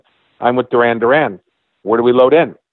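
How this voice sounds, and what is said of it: Put-on broken English accent. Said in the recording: “the broken English accent”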